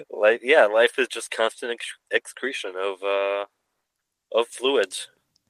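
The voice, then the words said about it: Congested, stuffy voice. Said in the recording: “if I sound a little congested, ... I have my COVID fluids coursing through”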